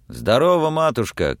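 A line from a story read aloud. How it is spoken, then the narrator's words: Shout. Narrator (Russian): крикнул он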